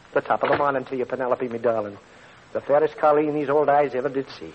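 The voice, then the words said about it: Corny put-on Irish brogue. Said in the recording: “corny brogue”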